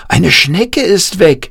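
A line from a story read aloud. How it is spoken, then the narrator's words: Calling out. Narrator (German): rief Jan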